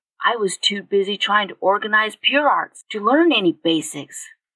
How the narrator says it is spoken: he said in a soft voice

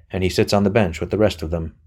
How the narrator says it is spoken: said Anthony dryly

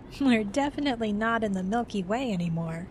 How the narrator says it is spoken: Jeff said with a laugh

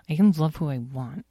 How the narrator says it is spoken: mumbled Edwin

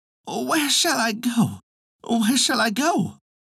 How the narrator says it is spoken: anxiously flying hither and thither, he cried

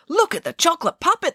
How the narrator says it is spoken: they cried

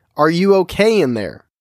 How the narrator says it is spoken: yelled again

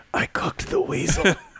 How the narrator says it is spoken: softly whispered

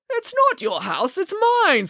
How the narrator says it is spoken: spluttered Mr

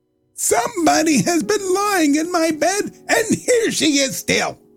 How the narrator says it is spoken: said the little wee bear in his little wee voice

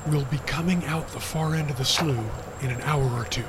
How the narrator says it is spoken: whispered Will, so as not to wake the others who were still sleeping

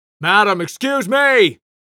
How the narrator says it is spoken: The security guard shouted at her from behind the desk

